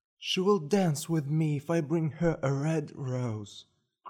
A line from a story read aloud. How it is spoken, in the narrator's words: cried the young student